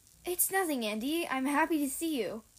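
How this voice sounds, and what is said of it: Unusually happy voice. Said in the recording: “an unusually happy voice ... in that same voice”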